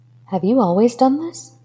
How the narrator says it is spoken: she questioned feebly, shook by her revelation

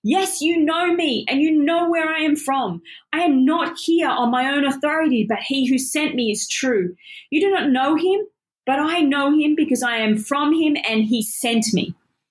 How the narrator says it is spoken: Jesus, still teaching in the temple courts, cried out

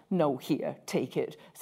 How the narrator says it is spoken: said Tom firmly

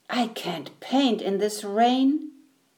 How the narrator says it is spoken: the painter grumbled

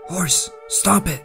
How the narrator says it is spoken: I whispered to the animal, letting my fear of homelessness overpower my fear of the foreign beast

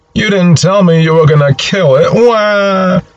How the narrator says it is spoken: Linus looks properly horrified as he wails out

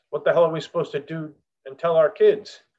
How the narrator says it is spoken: He shouted from within the group

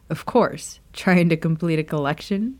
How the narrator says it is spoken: Remus chuckled

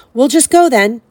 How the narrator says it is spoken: Harry called desperately to Aragog

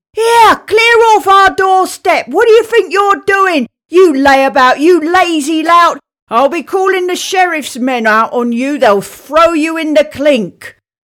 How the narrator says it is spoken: she was screaming

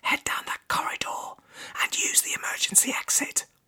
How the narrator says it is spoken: a nurse whispered

